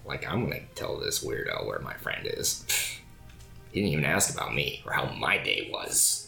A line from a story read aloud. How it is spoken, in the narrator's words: And you can hear her muttering under her breath